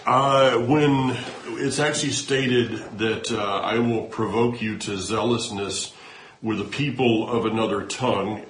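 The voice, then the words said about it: Southern US accent. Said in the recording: “my Hebrew with a southern accent”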